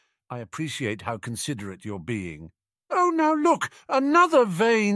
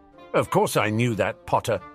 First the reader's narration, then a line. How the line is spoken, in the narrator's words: Snape snapped